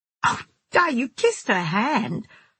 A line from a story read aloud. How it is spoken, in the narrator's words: I laughed